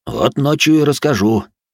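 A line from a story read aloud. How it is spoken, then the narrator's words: Amused snort. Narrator (Russian): хмыкнул солдат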